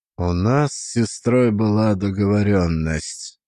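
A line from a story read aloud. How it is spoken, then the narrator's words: Muffled voice. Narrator (Russian): заговорил глухо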